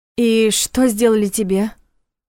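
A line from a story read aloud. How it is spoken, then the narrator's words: Muffled, breathless question. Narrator (Russian): глухо спросила она, пытаясь дышать глубже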